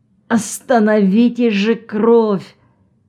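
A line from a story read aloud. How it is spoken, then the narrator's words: Moaning plea. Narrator (Russian): он застонал и попросил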